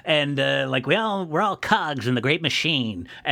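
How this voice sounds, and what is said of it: Put-on character voice. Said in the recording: “I don't know why I'm doing this voice for Optimus”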